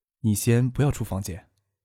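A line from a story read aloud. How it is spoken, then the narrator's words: Soft. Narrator (Chinese): 轻声对许思说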